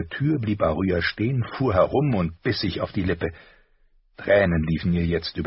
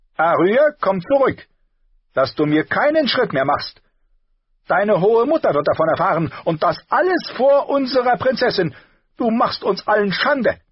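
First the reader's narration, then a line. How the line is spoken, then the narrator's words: Calling after someone. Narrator (German): Septa Mordane rief ihr nach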